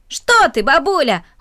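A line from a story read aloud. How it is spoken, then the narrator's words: Boy's exclamation. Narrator (Russian): воскликнул мальчик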